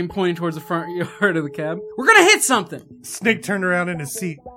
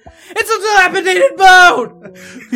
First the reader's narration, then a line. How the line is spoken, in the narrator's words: He screamed